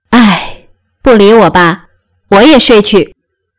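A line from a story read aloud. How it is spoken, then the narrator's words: Dejected sigh. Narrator (Chinese): 宝玉自觉无趣，便起身叹道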